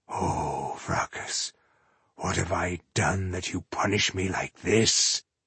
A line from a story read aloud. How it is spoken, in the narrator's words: Ireheart murmured in distress